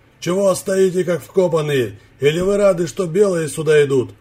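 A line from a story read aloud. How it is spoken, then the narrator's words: Rough shout. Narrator (Russian): Грубо крикнул он им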